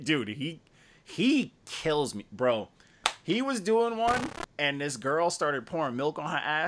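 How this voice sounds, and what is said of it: Usual voice. Nothing is said of it.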